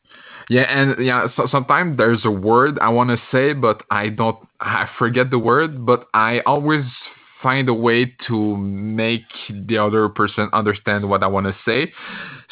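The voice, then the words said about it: Speaks with a foreign accent. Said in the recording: “my accent that I hate. Like, I have this annoying accent.”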